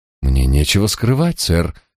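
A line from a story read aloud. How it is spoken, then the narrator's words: Breathless exhale. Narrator (Russian): выдохнул Крейг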